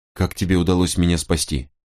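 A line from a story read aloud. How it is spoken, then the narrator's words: Plain. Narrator (Russian): спросил я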